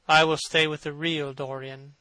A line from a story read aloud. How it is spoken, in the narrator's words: he said sadly